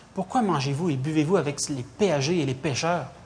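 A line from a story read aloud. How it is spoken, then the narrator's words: Disapproving murmur. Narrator (French): Ils murmuraient et disaient à ses disciples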